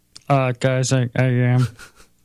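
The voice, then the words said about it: Poor imitation of another person's voice. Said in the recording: “That's a terrible impression.”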